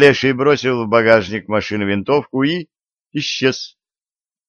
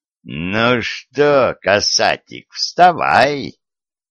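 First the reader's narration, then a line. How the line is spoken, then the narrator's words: Creaky, snide voice. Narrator (Russian): проскрипел чей-то ехидный голос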